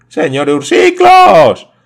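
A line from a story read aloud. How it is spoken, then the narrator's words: Exclaiming together. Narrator (Spanish): exclamaron los hermanos Melville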